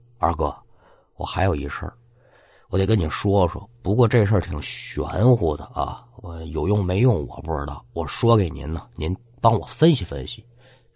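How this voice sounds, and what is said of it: Hushed, low muttering voice. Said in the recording (Chinese): “小声对马二哥嘀咕”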